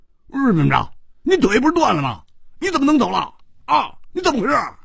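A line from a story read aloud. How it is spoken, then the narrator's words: Furious roaring. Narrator (Chinese): 胡铁花更要气疯了，他大声地吼着说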